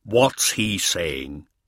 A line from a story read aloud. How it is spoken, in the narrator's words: he growled